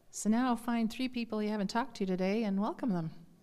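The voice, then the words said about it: Strained, failing voice. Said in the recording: “I lose my voice”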